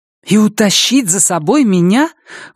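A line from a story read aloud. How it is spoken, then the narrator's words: Indignant exclamation. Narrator (Russian): воскликнула она с негодованием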